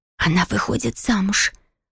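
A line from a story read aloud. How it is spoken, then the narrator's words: Anxious whisper. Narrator (Russian): прошептала Филиппа, и с тревогой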